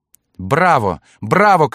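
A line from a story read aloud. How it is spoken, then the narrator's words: Woman shouting. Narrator (Russian): кричала дама из отеля Гиза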